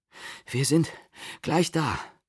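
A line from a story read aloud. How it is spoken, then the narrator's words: Breathless reply. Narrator (German): erwiderte Matti atemlos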